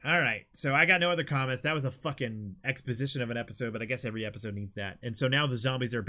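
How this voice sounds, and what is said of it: Usual voice. Nothing is said of it.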